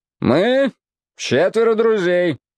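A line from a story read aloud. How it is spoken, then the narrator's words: Loud exclamation. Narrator (Russian): громко воскликнул он, и половина всего двора ясно расслышала его слова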